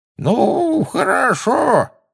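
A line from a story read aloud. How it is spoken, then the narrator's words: Quavering old voice. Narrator (Russian): сказал он дребезжащим старческим голоском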